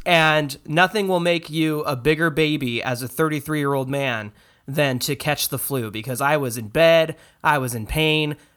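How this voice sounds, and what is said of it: Sick, flu-affected voice. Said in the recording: “I caught the flu for like the first time in like 7 years ... So you probably hear it in my voice.”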